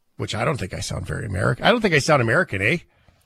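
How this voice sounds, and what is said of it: Canadian accent. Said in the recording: “That was very Canadian.”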